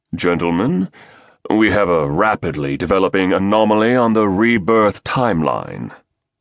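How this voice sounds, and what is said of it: Deep British baritone voice. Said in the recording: “a British baritone replied”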